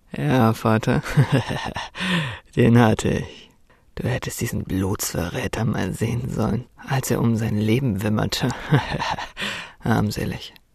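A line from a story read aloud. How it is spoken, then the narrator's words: Mocking. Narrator (German): spottete Magnus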